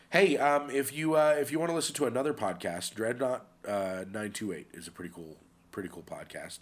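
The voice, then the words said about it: Voice sounds sick. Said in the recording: “I've been a little under the weather. It's why my voice sounds the way it does.”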